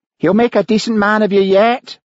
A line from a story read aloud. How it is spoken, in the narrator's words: jeered